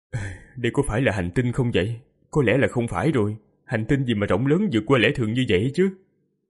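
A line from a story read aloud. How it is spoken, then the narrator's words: Weary groaning. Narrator (Vietnamese): Hắn vô lực chỉ biết rên rỉ, xoa huyệt thái dương rồi nói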